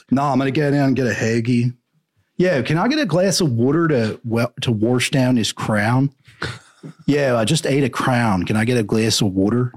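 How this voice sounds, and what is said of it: Put-on Philadelphia accent. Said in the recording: “It's a weird accent in Philly. I can't really do it.”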